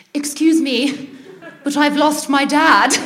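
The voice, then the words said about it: Exaggerated posh British accent. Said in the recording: “in probably in like poshest British accent, more posh than I've ever used in my life”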